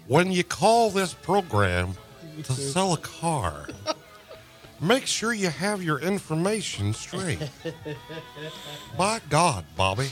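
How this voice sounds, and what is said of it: Hank Hill cartoon character voice. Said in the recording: “do you have a Hank Hill? ... do that voice ... That was really good.”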